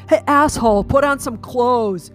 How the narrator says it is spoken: Shouts of

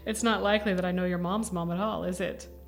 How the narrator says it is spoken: Levi laughed

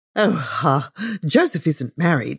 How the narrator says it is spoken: said Amelia, laughing again

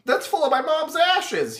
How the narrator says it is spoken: he yells

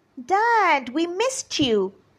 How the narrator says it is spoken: they shouted

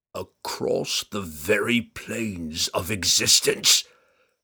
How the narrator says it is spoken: Errtu growled

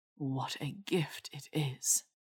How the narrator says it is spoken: he murmured against her

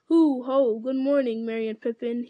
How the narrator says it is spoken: boomed

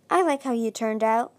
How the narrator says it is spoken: Fate's figure said softly

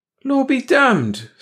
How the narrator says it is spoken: Stone cried

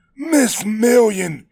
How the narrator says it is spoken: He barked

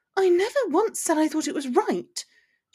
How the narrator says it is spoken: she defended quickly

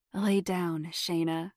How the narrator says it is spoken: Chad said softly

